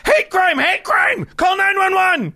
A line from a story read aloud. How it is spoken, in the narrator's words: yell